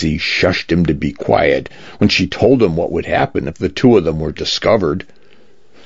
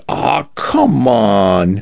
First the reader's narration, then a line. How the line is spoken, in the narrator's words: Cal groaning